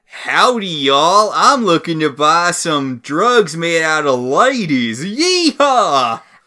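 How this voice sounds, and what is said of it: Over-the-top cartoonish Texan cowboy accent. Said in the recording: “puts on a cartoonish cowboy voice ... his own over the top Texan oil tycoon accent”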